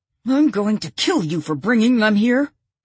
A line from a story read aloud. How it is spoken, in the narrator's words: a male voice shout